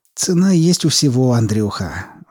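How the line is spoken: Sighed. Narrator (Russian): вздохнул Скворцов

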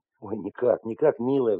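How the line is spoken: Sigh. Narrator (Russian): вздохнул Потапов

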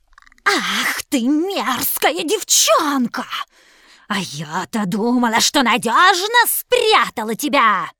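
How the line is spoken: Hissing witch. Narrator (Russian): зашипела колдунья

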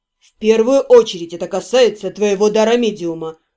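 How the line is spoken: Calm, rising to near shout. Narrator (Russian): спокойно подтвердил Седрик и продолжил, понемногу повышая тон, пока не стал почти кричать

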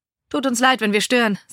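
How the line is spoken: Cheerful addition. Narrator (German): setzte Alexander fröhlich hinzu

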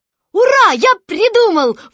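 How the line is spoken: Sudden shout. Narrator (Russian): вдруг закричал Кристофер Робин

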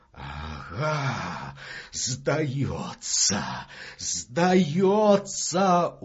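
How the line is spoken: Hoarse wheeze. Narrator (Russian): уже хрипит Числов

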